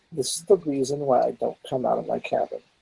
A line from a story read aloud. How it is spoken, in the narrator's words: scoff and mutter to myself